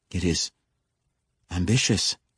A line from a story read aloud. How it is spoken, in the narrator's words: Jari stammered